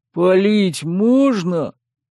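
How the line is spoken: Dragon's booming rumble. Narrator (Russian): прогудел змей Горыныч, выпуская струйку дыма

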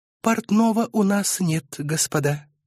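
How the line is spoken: Gentle correction. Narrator (Russian): мягко поправил он

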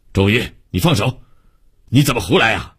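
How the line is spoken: Stern scolding. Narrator (Chinese): 厉声训斥

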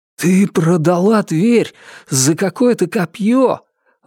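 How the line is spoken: Exclaimed. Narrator (Russian): воскликнул Ричард

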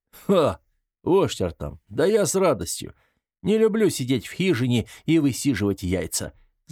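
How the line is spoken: Loud savage laughter. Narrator (Russian): захохотал дикарь

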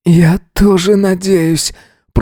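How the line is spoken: Hoarse groan. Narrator (Russian): простонал хрипло Эзра

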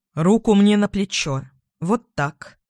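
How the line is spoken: Calm. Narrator (Russian): Эдвин спокойно произнес

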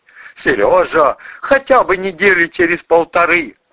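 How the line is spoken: Pleading. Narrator (Russian): взмолился шеф

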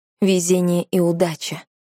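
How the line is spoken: Plain. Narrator (Russian): сказал он

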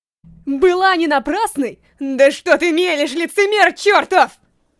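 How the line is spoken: Shouting to himself. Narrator (Russian): Прокричал он сам себе

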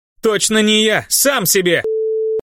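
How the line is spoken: Hot-tempered shout. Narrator (Russian): Запальчиво крикнула Тисса

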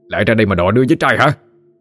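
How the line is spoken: Angry shout. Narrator (Vietnamese): Lân quát lên

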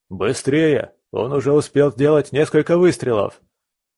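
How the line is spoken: Urgent shout. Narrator (Russian): крикнул один из городовых

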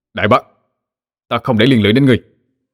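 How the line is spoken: Sudden forceful shout. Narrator (Vietnamese): Thiên Bạc đột nhiên dùng sức mà quát lớn

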